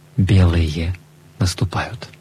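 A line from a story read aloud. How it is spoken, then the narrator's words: Whispered. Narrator (Russian): Он шепнул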